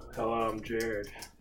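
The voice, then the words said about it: Flat monotone voice. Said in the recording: “Don't be so monotone, please. ... That's my voice.”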